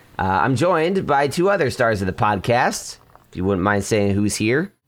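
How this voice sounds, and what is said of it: Hoarse, fading voice. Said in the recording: “my voice is departing my body”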